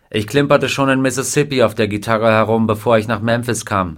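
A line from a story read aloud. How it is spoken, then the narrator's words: Plain. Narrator (German): sagte er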